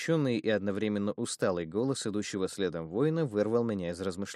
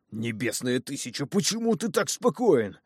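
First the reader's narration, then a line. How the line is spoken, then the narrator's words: Indignant hiss, big man. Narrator (Russian): возмущенно прошипел здоровяк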